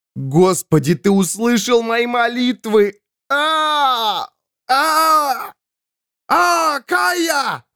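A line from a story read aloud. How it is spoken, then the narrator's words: Sudden yell. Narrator (Russian): Вдруг заорал человек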